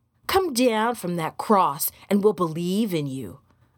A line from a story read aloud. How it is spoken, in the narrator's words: another said scornfully